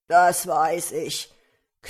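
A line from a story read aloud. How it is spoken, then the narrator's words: Ogre growling. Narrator (German): knurrte der Menschenfresser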